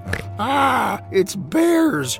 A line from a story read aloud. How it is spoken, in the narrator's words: she screamed